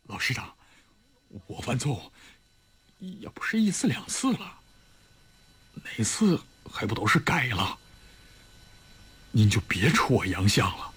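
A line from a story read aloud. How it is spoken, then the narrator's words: Quiet. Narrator (Chinese): 李云龙小声地说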